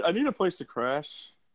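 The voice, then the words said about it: Slurred drunk-sounding voice. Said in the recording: “doing a drunk voice.”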